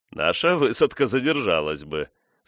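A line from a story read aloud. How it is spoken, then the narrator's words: Tactful laugh. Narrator (Russian): старший офицер засмеялся, обнаруживая свою тактичность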